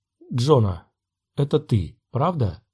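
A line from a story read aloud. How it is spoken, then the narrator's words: Quiet question. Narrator (Russian): тихо спросил Оби-Ван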